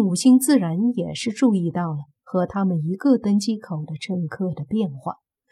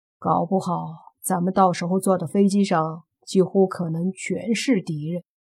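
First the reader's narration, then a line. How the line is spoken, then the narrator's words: Cold laugh, detached. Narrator (Chinese): 莫凡冷笑一声，淡淡的对宁武星说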